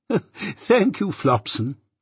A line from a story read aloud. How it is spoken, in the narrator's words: Pocket laughed and said